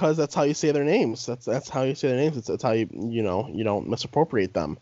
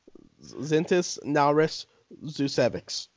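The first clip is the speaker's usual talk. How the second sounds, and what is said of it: Put-on foreign accent pronouncing names. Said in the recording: “Why you always gotta try to do, like, the accent with it?”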